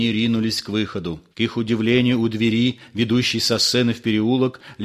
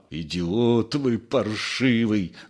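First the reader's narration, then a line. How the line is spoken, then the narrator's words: Groaning. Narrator (Russian): застонал Остап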